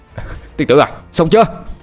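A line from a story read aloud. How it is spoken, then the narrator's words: Exhausted loud shout. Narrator (Vietnamese): Anh thông dường như sắp quá sức, anh hét lớn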